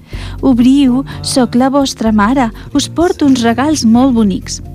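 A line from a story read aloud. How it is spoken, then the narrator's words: Wolf's sweet sticky voice. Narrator (Catalan): El llop amb una veu dolça i enganxosa va dir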